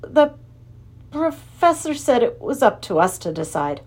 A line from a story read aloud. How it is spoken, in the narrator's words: Ben stammered